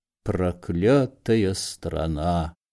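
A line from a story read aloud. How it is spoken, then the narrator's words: Muttered. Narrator (Russian): бормотал Корейка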